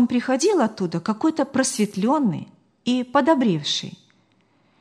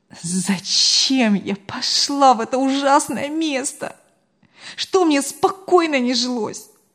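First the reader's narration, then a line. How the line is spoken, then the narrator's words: Moaned. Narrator (Russian): Галина простонала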